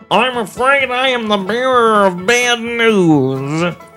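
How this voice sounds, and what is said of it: Mock doctor voice. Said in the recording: “this is my doctor impression.”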